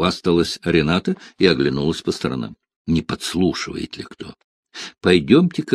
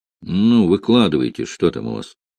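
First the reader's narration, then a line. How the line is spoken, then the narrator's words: Irritated grumble. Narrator (Russian): раздраженно буркнул Барбос, недовольный Ренатиной любознательностью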